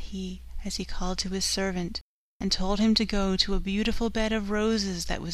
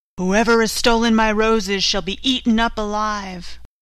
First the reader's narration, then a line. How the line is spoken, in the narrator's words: a fierce lion roared out